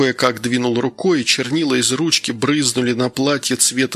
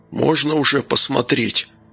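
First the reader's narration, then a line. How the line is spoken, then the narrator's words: Hoarse. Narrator (Russian): прохрипел Данил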